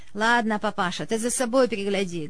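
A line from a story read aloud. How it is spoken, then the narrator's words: Rough, curt interruption. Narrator (Russian): грубо оборвал его Георгий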